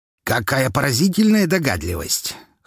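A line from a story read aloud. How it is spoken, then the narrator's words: Scoffing. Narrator (Russian): хмыкнул Лазарев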